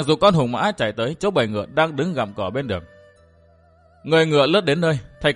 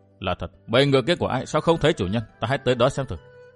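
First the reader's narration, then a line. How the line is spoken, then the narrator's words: Muttering. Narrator (Vietnamese): Thạch Kiếm Cửu lẩm bẩm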